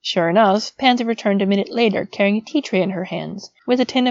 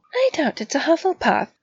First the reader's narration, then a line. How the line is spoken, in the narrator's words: Pansy said, her voice perfectly poised, though her hand shook ever so slightly